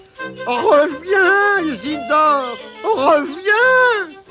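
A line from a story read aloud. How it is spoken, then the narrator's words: Shouted while chasing. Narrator (French): cria en essayant de le rattraper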